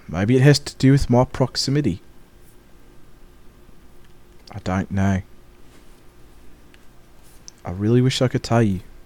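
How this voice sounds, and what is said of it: Put-on New Zealand-Australian accent, rising inflection. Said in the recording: “I am loving the New Zealand accent ... I thought it was more Australian ... it's how you say uh, deck and how you end on an up note ... They have an upward inflection ... your e's turn into”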